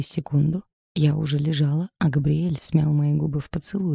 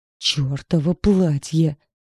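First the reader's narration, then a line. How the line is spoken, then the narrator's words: Growl. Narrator (Russian): рыкнул он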